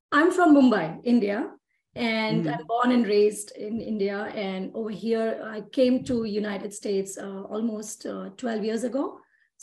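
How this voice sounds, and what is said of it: Indian English accent. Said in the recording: “your wonderful accent”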